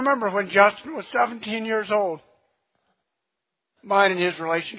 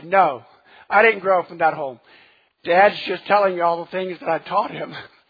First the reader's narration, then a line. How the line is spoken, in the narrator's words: He just laughed and said